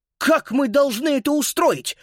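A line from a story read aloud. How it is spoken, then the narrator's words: Indignant shout. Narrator (Russian): возмущенно выкрикнул он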